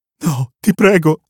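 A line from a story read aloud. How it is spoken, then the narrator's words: Strained pleading girl. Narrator (Italian): implora la ragazza, sentendo di aver perso il controllo dei muscoli del viso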